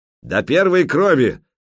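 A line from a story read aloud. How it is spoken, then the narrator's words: Barked shout. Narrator (Russian): рявкнул Стемид Большой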